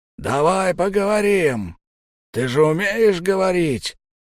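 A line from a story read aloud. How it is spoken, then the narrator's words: Hoarse shouting man. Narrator (Russian): хрипло орал здоровяк следохода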